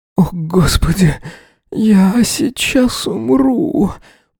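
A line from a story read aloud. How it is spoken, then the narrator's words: Barely audible whimper. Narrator (Russian): проскулил он едва слышно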